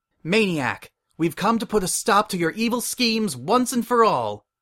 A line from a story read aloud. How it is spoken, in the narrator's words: the Masked Matterhorn cried